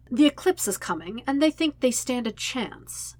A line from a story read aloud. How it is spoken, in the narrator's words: says brightly